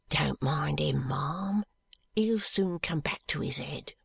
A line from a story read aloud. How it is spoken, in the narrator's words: She said to me in a low voice